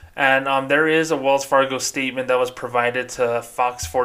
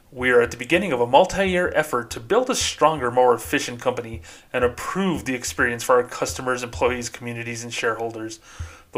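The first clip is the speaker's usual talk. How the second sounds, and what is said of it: Corporate bank spokesperson voice. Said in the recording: “do my bank voice”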